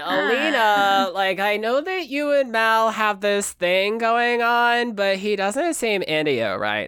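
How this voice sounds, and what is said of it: Imitating Jocelyn from Bob's Burgers. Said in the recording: “I kind of sometimes I read Zoya's lines as Jocelyn from Bob's Burgers ... Like what I was just doing a minute ago.”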